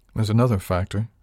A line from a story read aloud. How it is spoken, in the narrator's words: I said